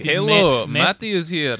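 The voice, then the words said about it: Thick put-on Russian accent. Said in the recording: “a really thick, like, Russian accent”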